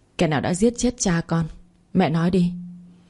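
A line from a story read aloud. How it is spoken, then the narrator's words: Thunderous voice. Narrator (Vietnamese): Giọng của Lan Thi như một tiếng sét ngang tai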